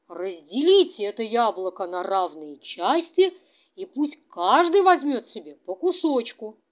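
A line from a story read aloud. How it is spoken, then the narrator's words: Exclaimed in chorus. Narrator (Russian): И все хором воскликнули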